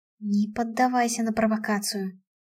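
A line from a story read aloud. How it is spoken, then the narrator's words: Mental whisper. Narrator (Russian): шептала я Максу мысленно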